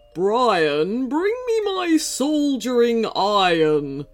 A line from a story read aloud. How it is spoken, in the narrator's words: growled Howlerg